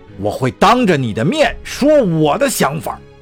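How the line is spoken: Loud roar. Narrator (Chinese): 他大吼一声

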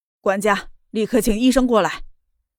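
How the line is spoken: Furious roar. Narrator (Chinese): 莫胜则是脸色铁青，吼道

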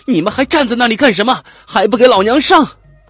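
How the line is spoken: Loud. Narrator (Chinese): 零三幺五号大声说

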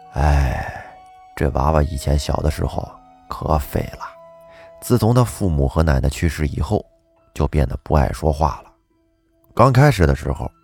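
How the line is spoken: Sighing village chief. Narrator (Chinese): 村长叹了口气说

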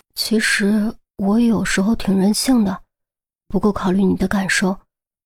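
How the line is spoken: Soft murmur. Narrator (Chinese): 于西心中轻叹，呢喃着说

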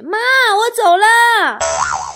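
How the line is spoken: Shouted at full voice. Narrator (Chinese): 我都会扯嗓子喊一句

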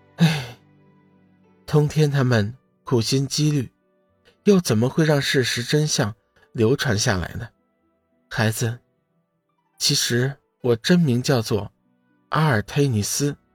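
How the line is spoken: Sighing. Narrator (Chinese): 天雪叹息一声

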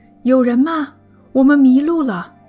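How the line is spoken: Breathless shouting. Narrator (Chinese): 布兰登和吉娜狂奔过去，大喊

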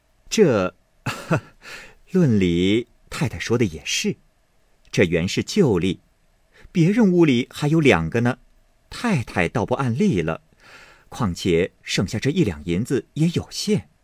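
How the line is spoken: Laughing. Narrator (Chinese): 凤姐笑道

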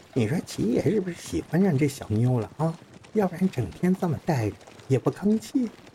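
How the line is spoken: Whispering from behind. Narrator (Chinese): 后面听着有人小声的开始说话了

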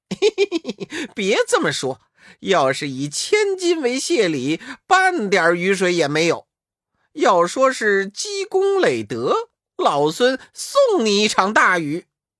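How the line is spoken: Joyful laughing. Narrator (Chinese): 悟空满脸的欢喜，呵呵笑道

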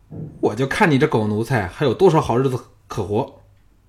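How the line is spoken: Angry. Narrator (Chinese): 吴廷伟怒道

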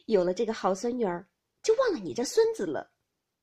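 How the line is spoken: Laughing. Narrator (Chinese): 又笑道

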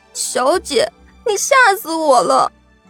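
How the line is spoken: Crying. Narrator (Chinese): 小环哭着说道

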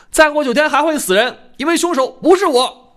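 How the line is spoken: Loud. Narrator (Chinese): 我大声说

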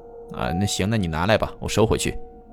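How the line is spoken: Sighing. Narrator (Chinese): 那人叹了口气

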